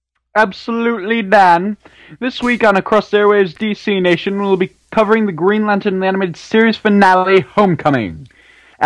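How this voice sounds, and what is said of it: Announcer voice. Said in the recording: “in your awesome announcer voice”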